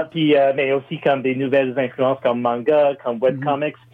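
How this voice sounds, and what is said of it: American accent speaking French. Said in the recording (French): “moi, je suis un Américain ... une évidence avec mon accent”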